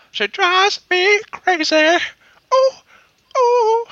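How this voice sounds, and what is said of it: Sings imitating a pop singer. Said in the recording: “your impression of the lead singer from Fine Young Cannibals”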